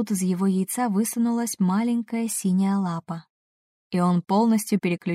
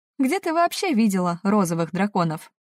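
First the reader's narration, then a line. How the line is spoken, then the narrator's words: Snorting scoff. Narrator (Russian): хмыкнул Фирс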